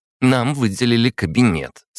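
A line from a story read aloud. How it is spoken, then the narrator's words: Plain. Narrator (Russian): сказала Анастасия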